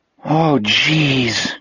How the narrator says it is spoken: Jack groaned

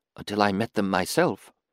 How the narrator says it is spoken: she whispered into the gloom

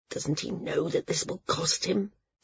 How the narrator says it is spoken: Cena muttered

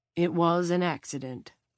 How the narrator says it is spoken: Janice said

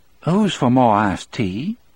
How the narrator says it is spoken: She asked brightly

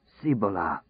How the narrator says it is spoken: he muttered

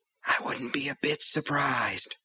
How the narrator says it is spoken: Under his breath, Brian whispered

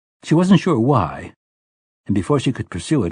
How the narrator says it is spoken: Roland asked sharply

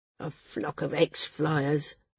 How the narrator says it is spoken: Garth grumbled

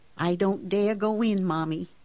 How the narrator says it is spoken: said, and her voice was trembling

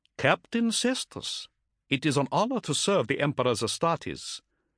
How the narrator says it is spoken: responded coolly

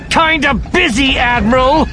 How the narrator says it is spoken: Morna hisses through her teeth

